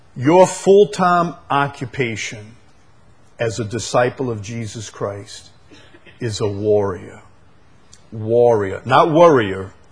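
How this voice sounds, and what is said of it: Chalmette accent. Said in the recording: “I see I have a Chalmette accent. ... even Siri doesn't understand me ... Doesn't understand Chalmation”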